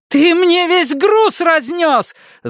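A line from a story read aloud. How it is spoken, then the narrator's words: Wailing yell. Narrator (Russian): завопила она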